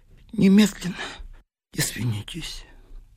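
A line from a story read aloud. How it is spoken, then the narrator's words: Quiet, nervous. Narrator (Russian): нервно кусая губы, тихо сказал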